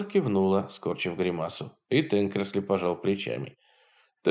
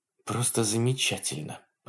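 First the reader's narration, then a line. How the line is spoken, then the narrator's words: Muttered. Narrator (Russian): пробормотала Хонор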